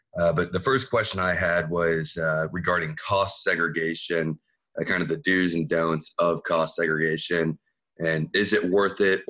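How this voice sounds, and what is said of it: Slightly hoarse voice. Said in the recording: “My voice is a little hoarse, under the weather.”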